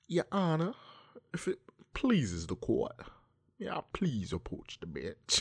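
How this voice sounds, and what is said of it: Fancy Southern lawyer accent. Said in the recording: “leg horn impression ... a fancy, like a Huckleberry Finn lawyer type of fucking accent.”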